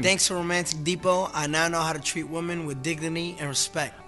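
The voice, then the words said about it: New York accent. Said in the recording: “He's just got a New York accent.”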